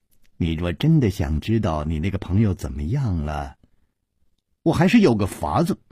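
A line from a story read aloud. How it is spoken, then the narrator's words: Smiling child. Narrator (Chinese): 那童子笑着说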